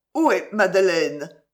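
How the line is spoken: Stammering. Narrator (French): balbutia-t-il

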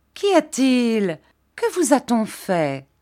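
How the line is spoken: Exclaimed. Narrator (French): s'écria Miss Mills

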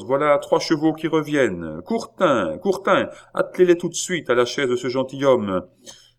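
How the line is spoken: Postmaster shouting. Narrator (French): cria le maître de poste

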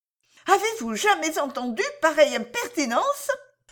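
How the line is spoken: Indignant exclamation. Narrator (French): s'écria Madame Harel

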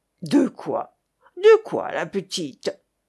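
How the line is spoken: Growling. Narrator (French): gronda le nouveau cabaretier

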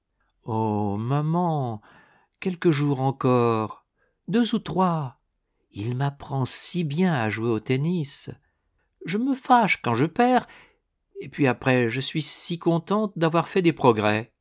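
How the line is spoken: Coaxing voice. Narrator (French): Annette, d'une voix câline

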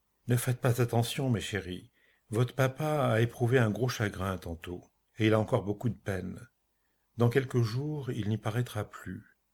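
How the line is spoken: Calm voice after sigh. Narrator (French): poussant un grand soupir, comme après une première victoire, reprit d'une voix calmée

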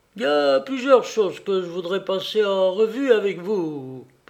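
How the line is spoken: Impassive voice. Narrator (French): poursuivit d'une voix impassible

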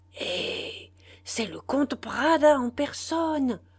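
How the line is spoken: Amazed murmur. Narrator (French): murmura Narcisse émerveillé

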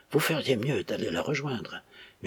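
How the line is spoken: Piercing murmur. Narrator (French): murmura-t-il d'un ton pénétrant

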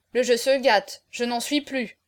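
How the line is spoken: Grumbled. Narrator (French): grommela Auriol

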